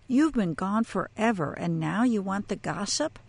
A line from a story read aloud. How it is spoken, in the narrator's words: He laughed and said